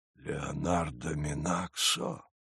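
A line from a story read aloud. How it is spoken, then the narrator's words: Whispered. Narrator (Russian): прошептал он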